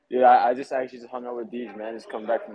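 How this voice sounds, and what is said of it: Worn-out, strained voice. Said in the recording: “My voice is fucking shot.”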